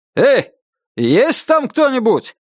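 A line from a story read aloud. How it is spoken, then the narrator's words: Shouted as loud as possible. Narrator (Russian): крикнул он так громко, как только мог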